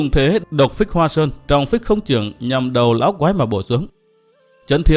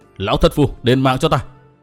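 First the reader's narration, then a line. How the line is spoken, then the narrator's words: Shouted. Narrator (Vietnamese): quát bảo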